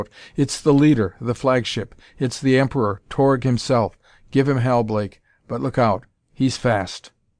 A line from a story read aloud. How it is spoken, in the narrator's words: McGuire clutched at the arm of the man beside him to shout